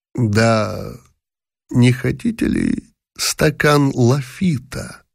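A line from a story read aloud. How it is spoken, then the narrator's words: Slow, hissing, strangled voice. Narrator (Russian): Медленно, тихим, шипящим, сдавленным голосом произнес, наконец, фон дер Палин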